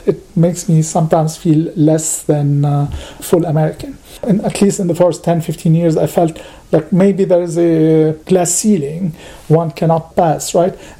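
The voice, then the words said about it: Non-native English accent. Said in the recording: “I still have an accent ... my accent”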